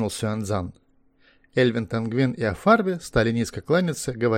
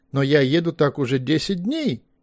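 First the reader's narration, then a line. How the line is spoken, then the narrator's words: Unhappy exclamation. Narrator (Russian): воскликнул очень нерадостно человек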